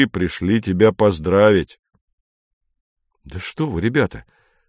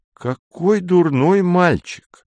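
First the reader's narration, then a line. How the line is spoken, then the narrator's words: Exclaiming. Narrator (Russian): воскликнул Поль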